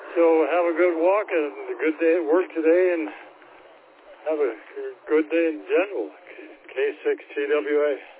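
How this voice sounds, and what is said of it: Out of breath, breathless speech. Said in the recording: “I'm running out of breath again.”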